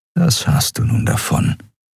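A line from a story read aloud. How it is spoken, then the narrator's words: Inner whisper. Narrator (German): flüsterte eine Stimme in seinem Kopf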